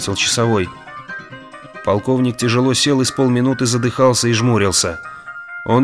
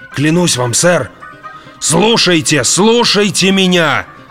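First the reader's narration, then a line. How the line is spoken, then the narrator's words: Man yelling. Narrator (Russian): заорал полковник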